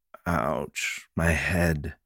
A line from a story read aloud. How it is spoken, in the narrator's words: Chance grumbled hoarsely